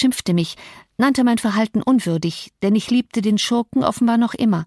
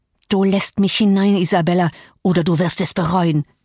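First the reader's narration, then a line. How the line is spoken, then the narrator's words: Hissing. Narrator (German): zischte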